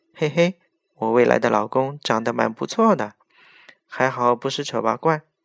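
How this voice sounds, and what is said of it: Quiet, muttered voice. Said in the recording (Chinese): “小声的”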